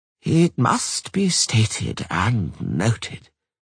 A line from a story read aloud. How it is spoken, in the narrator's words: he said in a weary voice